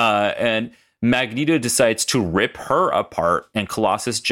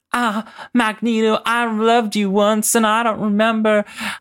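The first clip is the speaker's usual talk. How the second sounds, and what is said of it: Put-on southern accent. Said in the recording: “I'm Rogue. Can't you tell by my southern accent?”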